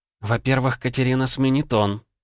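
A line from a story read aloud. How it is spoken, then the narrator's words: Sighing. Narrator (Russian): вздохнула Елизавета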